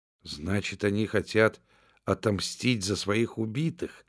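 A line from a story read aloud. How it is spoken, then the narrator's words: Weak-voiced question. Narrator (Russian): спросила Джудит слабым голосом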